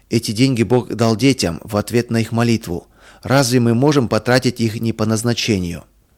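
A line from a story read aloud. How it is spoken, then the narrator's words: Plain. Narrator (Russian): сказал отец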